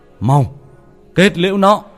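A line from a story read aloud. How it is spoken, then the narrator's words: Shout. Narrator (Vietnamese): Thầy Tư la lên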